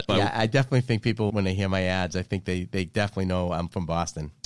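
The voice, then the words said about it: Boston accent. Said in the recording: “most people have recognized my Boston accent”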